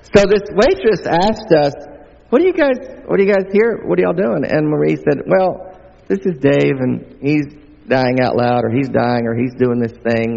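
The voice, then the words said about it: Mild Southern American accent. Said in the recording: “I've got a little bit of an accent. I'm not only from the States, I'm from the southern part of the States... my accent adorable”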